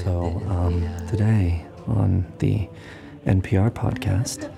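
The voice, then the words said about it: Soft NPR-style podcast voice. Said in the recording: “I'll do my podcasting voice ... Not like your NPR ... You were being ASMR.”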